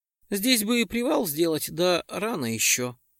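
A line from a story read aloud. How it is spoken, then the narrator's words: Sighing. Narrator (Russian): вздохнул Перк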